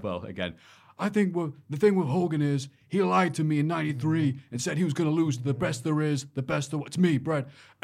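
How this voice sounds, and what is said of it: Good Bret Hart impression. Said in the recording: “You do definitely really good Brett Hart”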